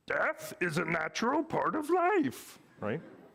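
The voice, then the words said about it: Poor imitation of Yoda's voice. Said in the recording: “terrible Yoda imitation”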